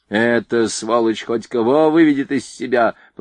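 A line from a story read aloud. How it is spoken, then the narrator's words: Grumbling, lowered tone. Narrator (Russian): пробурчал Стессель, но тон все же сбавил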